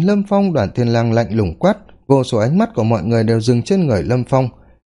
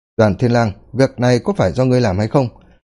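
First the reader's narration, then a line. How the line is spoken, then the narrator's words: Cold. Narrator (Vietnamese): Lâm Phong lạnh lùng nói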